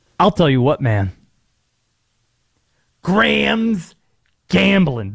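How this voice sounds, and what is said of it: Jon Gruden voice impression. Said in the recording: “the Gruden accent. I should have probably answered that question fully in the Gruden voice... I'll do this tease in the Gruden voice”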